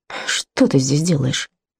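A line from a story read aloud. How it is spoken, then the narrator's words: Surprised mumble. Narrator (Russian): Хелена не ждала, что он начнет задавать вопросы, и пробормотала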